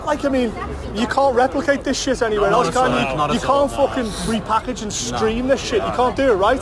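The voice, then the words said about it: Strong accent, hard for Americans. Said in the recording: “Some of our American friends are going to listen to this accent. Are going to fucking lose all”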